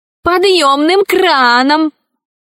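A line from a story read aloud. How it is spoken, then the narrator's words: Offended boy shouting from afar. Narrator (Russian): закричал издали оскорбленный мальчик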